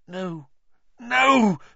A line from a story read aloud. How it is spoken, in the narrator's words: Harry gasped